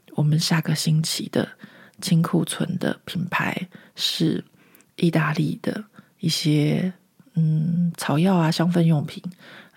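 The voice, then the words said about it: Speaking very quietly, hushed. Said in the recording (Chinese): “我要讲的很小声。...我干嘛讲那么小声？”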